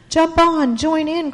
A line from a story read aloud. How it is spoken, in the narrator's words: cried the children